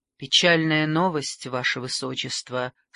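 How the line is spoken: Plain. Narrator (Russian): сказал он

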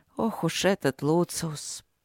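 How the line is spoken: Sea queen muttering. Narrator (Russian): пробормотала морская царица

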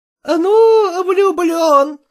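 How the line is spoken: Exclamation. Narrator (Russian): воскликнула Надежда Захаровна

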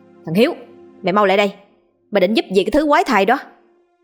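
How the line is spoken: Woman shouting loudly from afar. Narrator (Vietnamese): Tiếng hét của người phụ nữ từ đâu vọng đến, bà ta hét to rằng

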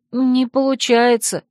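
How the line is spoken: Unhappy drawn-out voice. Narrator (Russian): несчастным голосом протянула я

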